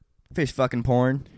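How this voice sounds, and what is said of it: Put-on Canadian accent. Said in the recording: “Say it in an accent. ... You hit Canadian there.”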